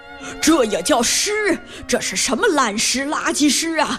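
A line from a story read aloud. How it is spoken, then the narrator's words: Scornful snort. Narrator (Chinese): 哼，说完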